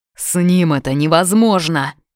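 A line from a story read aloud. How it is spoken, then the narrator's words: Young man growling. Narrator (Russian): зарычал парень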